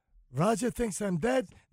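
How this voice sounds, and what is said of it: Put-on Jewish dialect. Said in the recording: “why did I just do Jewish dialect?”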